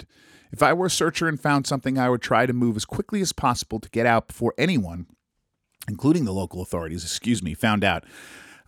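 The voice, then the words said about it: Congested voice from a cold. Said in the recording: “you guys can probably hear from my voice. I'm fighting off a cold again ... forgive my my swallowings and all that kind of terrible noise”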